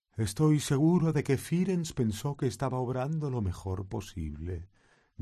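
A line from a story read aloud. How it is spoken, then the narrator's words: Gloomy voice. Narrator (Spanish): dijo con voz sombría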